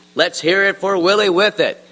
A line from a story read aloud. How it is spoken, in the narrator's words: shouted the mayor, the Wemmick who discovered the cure for the common nose